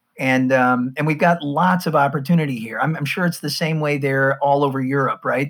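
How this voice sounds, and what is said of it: American accent. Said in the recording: “I think you can tell from my accent, I'm from the States.”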